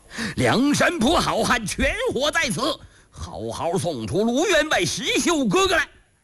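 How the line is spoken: Shouting. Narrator (Chinese): 邹渊、邹润就喊起来了

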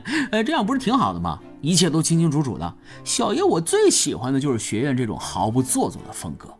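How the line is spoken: Laughing. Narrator (Chinese): 胖子一听笑了

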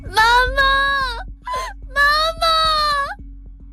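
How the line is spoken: Child crying out repeatedly. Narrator (Chinese): 车内的小男孩血流披面……他连声喊着妈妈

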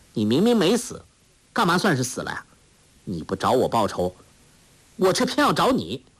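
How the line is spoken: Cold. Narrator (Chinese): 黄蓉冷冷地说

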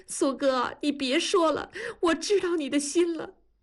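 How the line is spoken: Loud sobbing. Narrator (Chinese): 放声大哭

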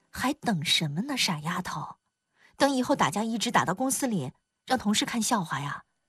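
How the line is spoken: Soft coaxing. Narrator (Chinese): 樊胜美轻声劝

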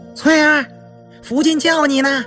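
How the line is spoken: Calling out. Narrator (Chinese): 一个大丫头喊道

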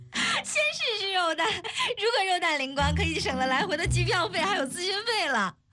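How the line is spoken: Laughing. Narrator (Chinese): 邱莹莹哈哈笑道

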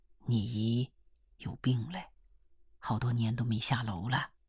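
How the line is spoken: Low voice. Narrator (Chinese): 风岛低声地告诉她

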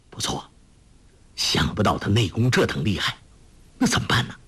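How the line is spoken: Low voice. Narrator (Chinese): 玄金发低声说

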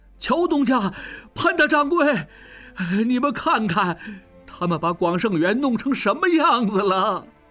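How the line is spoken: Blurted shout. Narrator (Chinese): 被拴着往外走的广圣元二掌柜忽然脱口大叫

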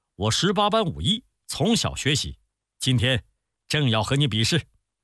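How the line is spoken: Laughing. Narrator (Chinese): 全宇笑着说

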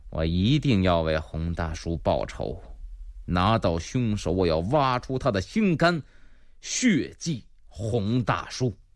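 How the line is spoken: Through gritted teeth. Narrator (Chinese): 马荣咬牙切齿

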